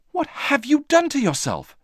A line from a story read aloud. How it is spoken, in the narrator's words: said Moomin Troll frantically